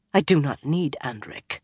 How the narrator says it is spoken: Amathera muttered

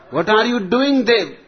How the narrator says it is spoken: Dad shouted

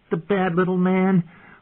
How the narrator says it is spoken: Lord Robert said, giggling

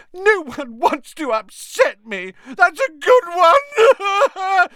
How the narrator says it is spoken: howled Myrtle

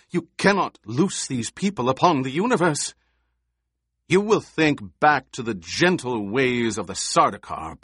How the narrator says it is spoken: Paul snapped

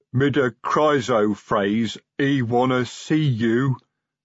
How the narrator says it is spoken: said Carved Arm sulkily

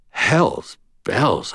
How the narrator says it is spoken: breathed

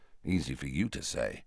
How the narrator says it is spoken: muttered Harry

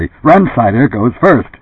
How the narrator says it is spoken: Joe said harshly

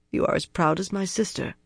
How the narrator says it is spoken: Avienda muttered, frowning

